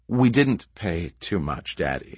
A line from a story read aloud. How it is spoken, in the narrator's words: she said firmly, with a frown